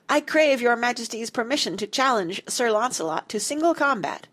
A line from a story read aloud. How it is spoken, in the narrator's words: cried the strange knight, in a voice loud enough for the children to hear clearly